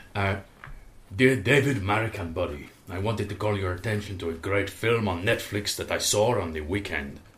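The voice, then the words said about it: Put-on Bolivian South American accent. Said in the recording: “to be read in a South American accent, preferably Bolivian ... Okay, Bolivia.”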